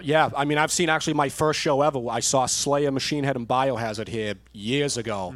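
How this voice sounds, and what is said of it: Strong Boston accent. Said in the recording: “You got the most Boston accent... it's very, very strong where I live”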